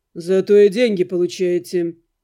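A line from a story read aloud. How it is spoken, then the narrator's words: Calm, almost cheerful. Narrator (Russian): Наниматель говорил спокойно, почти весело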